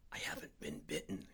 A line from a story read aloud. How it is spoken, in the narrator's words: whispered